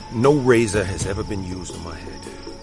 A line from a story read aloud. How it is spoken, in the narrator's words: he said